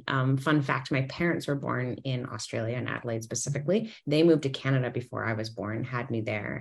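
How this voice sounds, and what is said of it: Canadian accent. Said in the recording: “You probably hear that I sound Canadian. ... although I sound Canadian”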